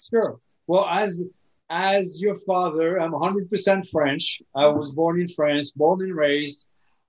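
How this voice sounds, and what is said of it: French accent. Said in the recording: “where this accent comes from”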